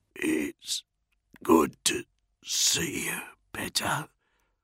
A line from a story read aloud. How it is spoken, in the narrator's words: Bronzy murmured